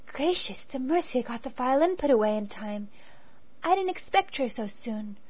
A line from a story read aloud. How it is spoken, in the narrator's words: whispered the girl